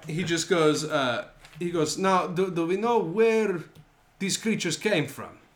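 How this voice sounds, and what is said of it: Put-on accent, getting worse. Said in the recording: “This accent is getting worse”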